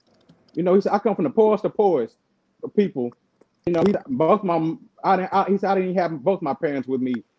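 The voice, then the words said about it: Southern US accent. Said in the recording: “the accent, the voice, the way he speaks... My southern accent too.”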